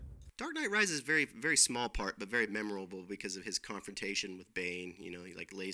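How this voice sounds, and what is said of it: Usual voice. Nothing is said of it.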